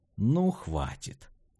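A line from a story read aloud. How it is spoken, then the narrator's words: Muttered. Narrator (Russian): пробормотал Портелло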